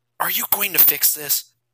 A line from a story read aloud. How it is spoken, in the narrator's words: Jason asked Barry, whispering so that they couldn't be overheard